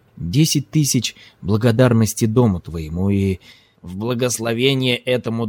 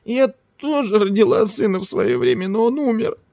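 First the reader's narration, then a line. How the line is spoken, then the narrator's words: Whimpering old woman. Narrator (Russian): захныкала согбенная фигура под чедрой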